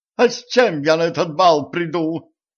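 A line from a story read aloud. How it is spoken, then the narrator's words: Hysterical cry. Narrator (Russian): истерично вскрикнула баронесса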